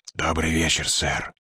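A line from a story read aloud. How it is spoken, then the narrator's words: Whisper from below. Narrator (Russian): послышался шепот с нижних ступеней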